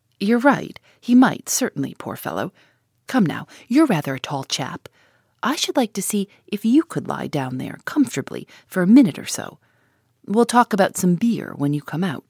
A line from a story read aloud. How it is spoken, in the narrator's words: Gus laughed and said